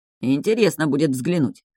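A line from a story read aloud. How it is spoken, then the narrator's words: Wry snort. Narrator (Russian): хмыкнул Энджин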